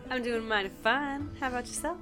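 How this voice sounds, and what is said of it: Put-on character accent. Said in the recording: “Oh, I love that accent.”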